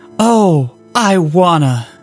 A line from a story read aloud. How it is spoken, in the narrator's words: Steve says with a tired chuckle